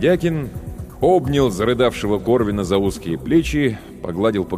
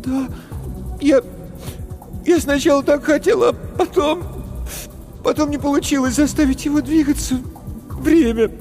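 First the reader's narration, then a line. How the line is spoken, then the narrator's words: Sobbing. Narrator (Russian): Корвин всхлипнул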